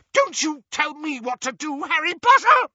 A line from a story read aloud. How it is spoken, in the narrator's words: she screeched